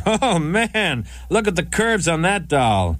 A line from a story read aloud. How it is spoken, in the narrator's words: he shouted out